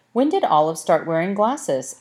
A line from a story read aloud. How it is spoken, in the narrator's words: asked Mr